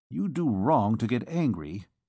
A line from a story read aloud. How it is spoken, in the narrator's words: muttered Gringoire